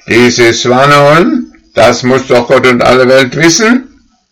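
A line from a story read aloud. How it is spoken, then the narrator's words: Called out. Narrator (German): rief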